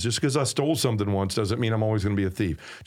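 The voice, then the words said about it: Southern American accent. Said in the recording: “my southern accent trying to say a word that makes it unintelligible.”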